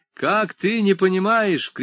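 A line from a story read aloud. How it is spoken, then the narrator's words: Shout. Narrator (Russian): крикнула она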